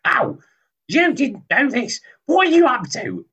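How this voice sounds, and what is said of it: Impression of his wife. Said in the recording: “when I do an impression of my wife to my wife”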